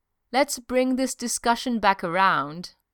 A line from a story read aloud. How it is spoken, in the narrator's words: Steve said calmly